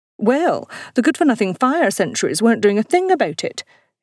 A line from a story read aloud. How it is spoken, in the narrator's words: exclaimed Oddfrida